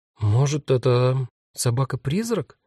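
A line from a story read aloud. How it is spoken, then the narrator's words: Uncertain guess. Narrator (Russian): неуверенно предположила Магда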